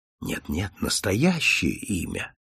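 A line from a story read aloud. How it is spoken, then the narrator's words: Gentle, kind. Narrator (Russian): ласково сказал Холмс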